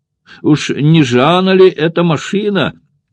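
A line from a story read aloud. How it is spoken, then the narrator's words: Friendly shout. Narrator (Russian): приветливо крикнул он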